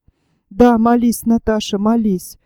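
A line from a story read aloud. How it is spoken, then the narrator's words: Hollow, muffled voice. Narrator (Russian): глухим голосом проговорил князь Иван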